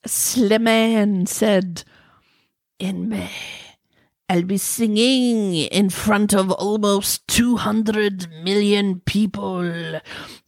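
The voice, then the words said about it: Put-on sexy French accent. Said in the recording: “let me get my sexy French accent because it's a French accent, so you know it's got to be sexy ... I'm required to make it sexy if I'm going to talk French”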